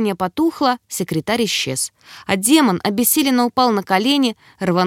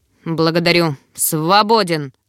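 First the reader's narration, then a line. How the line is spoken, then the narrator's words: Growl. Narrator (Russian): рыкнул Эмерс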